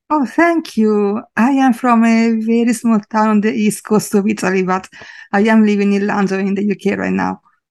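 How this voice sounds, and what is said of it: Italian-accented English. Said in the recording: “You have got a great accent. It's very beautiful.”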